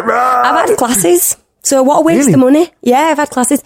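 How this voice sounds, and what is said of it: Broad Yorkshire accent. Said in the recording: “You got a broad one, though. You got a broad Yorkshire accent.”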